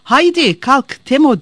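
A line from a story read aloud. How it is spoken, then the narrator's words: Old woman shouting. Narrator (Turkish): diye bağırmış Teşo nene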